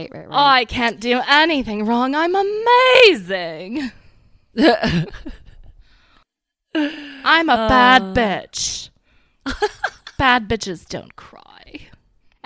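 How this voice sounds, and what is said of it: Imitates another person's accent and attitude. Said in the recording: “Is it just because of the accent? ... It's the accent and the attitude.”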